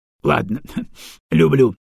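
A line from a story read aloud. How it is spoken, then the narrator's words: Laughing. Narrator (Russian): рассмеялся Арбидалчик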